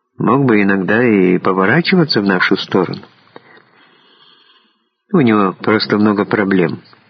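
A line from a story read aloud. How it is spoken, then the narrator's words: Quiet reply. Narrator (Russian): так же тихо ответил Дронго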